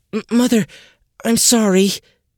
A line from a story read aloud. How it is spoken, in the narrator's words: Eliza stammered